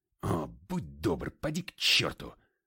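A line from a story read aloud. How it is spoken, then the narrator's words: Snapping. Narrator (Russian): огрызнулся я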